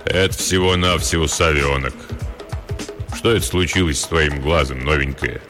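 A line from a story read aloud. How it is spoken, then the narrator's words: Deep bass voice. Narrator (Russian): Пробасил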